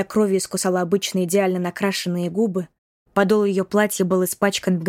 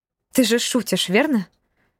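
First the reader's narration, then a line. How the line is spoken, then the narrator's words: Exclamation. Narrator (Russian): воскликнула Василиса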